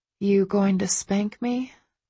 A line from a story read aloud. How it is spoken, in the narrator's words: I whisper